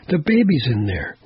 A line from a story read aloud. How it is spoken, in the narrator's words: one of the women cried